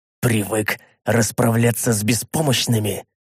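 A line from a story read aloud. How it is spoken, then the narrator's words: Said through teeth. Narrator (Russian): процедил я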